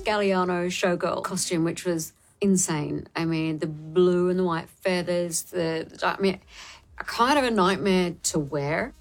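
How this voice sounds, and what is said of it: Faint Australian accent. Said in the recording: “Is there a faint Australian accent I also hear?”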